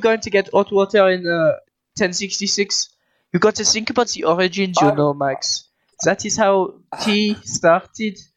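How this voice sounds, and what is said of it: Strong put-on French accent. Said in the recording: “why do you still speak with such a strong French accent?”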